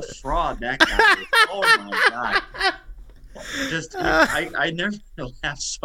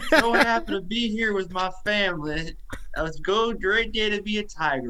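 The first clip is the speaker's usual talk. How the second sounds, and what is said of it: Put-on Cajun accent. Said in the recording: “Brian Kelly gained a Cajun accent”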